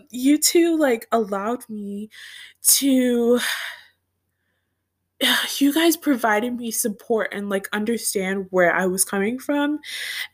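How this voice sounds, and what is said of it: Tearful, choked-up voice. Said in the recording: “brings tears to my eyes, and I'm literally watering up right now ... I'm literally getting choked up right now”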